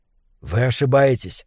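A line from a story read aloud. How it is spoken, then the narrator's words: Whispered reply. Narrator (Russian): шепотом ответил Кэл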